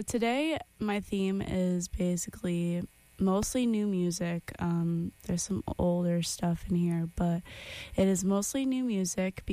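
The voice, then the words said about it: Unwell, under-the-weather voice. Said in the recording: “I am feeling under the weather today ... As you can see by my aura and my tone of voice, I am, not doing okay.”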